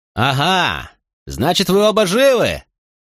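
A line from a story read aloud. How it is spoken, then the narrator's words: Shouted. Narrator (Russian): выкрикнул Тинкомми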